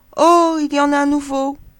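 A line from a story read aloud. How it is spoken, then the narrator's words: Children exclaiming. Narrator (French): tous les enfants de s'exclamer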